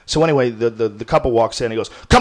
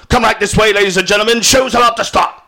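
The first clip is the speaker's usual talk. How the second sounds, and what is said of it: Poor imitation of Scottish accent. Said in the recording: “this crazy Scottish accent. It's a terrible impression of him”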